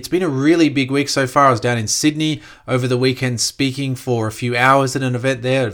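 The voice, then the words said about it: Croaky, hoarse voice. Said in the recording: “I do apologize if my voice is a bit croaky”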